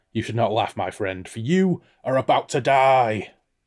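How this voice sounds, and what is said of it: Braying character voice. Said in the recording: “asked in a braying voice”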